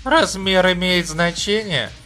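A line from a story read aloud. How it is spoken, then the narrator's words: Hoarse smirk. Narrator (Russian): хрипло усмехнулся он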